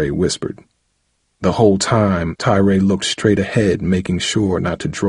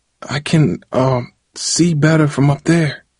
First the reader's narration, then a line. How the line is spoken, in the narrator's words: Darryl pleaded quietly to Tyrae